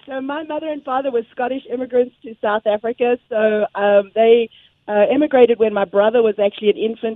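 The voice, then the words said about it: Mixed South African accent, slightly Londonized. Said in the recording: “I actually picked up the South African accent ... my accent kind of got a little bit messed up, a little bit Londonized ... It's mainly what you hear is South African, but there's a whole bunch of other stuff in there ... It's not Aussie.”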